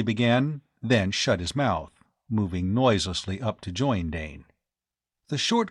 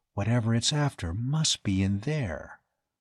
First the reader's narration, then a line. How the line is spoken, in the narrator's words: Dane said softly